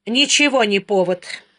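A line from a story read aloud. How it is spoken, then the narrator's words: Sullen mutter. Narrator (Russian): буркнула Дара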